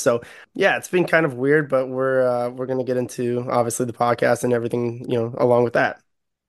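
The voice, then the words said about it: Congested, hoarse voice. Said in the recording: “I obviously sound a little bit different. I'm just getting over like a sinus infection slash like losing my voice.”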